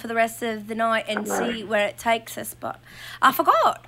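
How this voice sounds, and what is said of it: Put-on English accent. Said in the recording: “In an accent the whole time ... talk in this accent”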